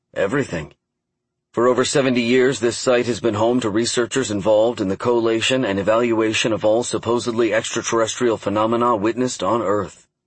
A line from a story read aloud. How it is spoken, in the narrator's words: he explained as he walked quickly